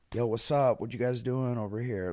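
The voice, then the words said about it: Cool guy flirting voice. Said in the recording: “I can do an impression of me doing that ... That was actually a great impression.”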